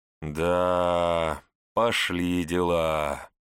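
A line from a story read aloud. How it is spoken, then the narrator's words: Vague drawl. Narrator (Russian): неопределенно протянул Готфрид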